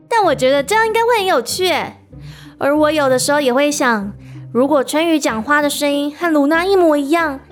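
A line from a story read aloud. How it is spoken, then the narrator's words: Laughing. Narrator (Chinese): 元宇也笑着说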